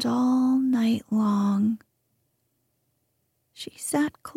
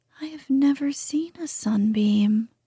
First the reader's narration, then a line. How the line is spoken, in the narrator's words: said the moonbeam wistfully